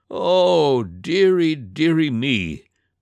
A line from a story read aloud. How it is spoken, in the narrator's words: moaned the dragon